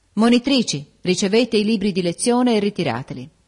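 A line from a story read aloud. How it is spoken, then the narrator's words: Exclaimed. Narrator (Italian): esclamò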